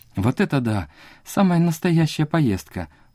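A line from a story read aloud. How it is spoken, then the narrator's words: Excited exclamation. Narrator (Russian): воскликнула третья сестра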